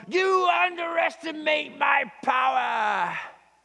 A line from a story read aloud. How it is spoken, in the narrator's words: he screams at Obi-Wan